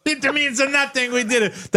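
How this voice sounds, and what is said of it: British-influenced Italian accent. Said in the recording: “That sounded like a really like a British influenced Italian accent”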